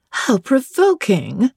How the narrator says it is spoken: exclaimed Miss Ingram

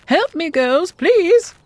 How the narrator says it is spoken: she hollered over her shoulder

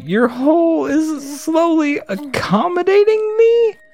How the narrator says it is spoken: Rat King exclaimed

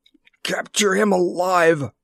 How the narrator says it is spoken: he gasped

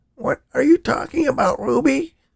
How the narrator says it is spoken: Danny gasped

